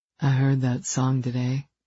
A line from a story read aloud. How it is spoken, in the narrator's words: he murmured